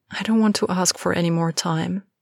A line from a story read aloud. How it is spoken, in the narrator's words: Andy said quietly